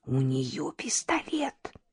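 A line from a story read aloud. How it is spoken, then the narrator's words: Whispered. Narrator (Russian): прошептала Даша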